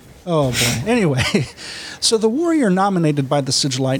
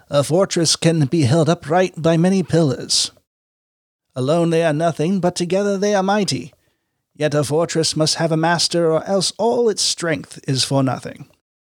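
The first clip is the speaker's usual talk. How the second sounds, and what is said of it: Dramatic character voice. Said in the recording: “my best Malkador impression”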